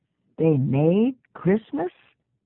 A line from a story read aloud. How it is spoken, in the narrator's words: Lizzie said slowly